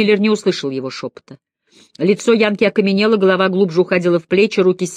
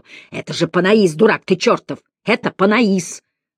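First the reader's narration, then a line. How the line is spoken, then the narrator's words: Growled whisper. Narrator (Russian): рычал Мэллори шепотом в самое ухо американца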